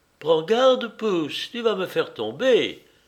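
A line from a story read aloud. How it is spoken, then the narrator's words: Excited exclamation. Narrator (French): s'écria-t-elle, les yeux brillants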